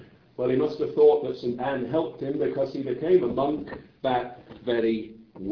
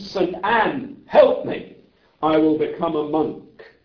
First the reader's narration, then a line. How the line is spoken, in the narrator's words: He exclaimed